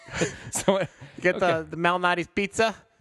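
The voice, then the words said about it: Put-on Chicago accent. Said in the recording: “When I do the accent, I get isolationist. ... since you're doing the Chicago accent.”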